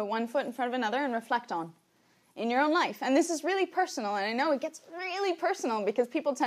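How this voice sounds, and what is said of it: Usual voice. Nothing is said of it.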